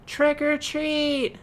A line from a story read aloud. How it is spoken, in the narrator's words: littlest witch shouted